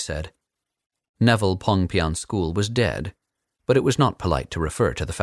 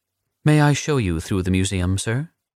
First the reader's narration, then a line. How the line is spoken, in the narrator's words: the Superbright asked